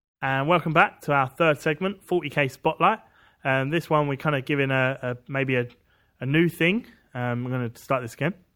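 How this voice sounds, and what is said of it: Out of breath speaker. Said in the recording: “I'm out of breath again. Stairs.”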